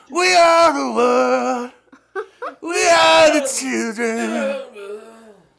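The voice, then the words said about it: Imitates another person's singing voice. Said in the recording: “Here's a Bruce Springsteen ... our Bruce Springsteen impersonations”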